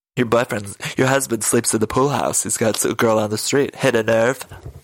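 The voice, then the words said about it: Poor impression of Margaret. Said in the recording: “that's worse than my Margaret impression. ... That's my Margaret. I'm the worst at these.”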